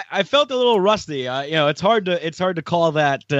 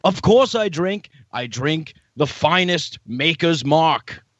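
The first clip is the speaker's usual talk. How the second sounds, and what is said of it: Paul Joseph Watson impression. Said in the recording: “this is not the real Paul Joseph Watson ... he does a pretty damn good PJW impression ... that Scottish brood that he has ... Excellent pauses as well there. Good cadence.”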